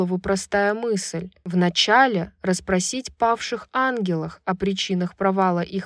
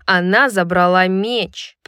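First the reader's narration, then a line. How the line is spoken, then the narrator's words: Growl. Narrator (Russian): прорычала Сабина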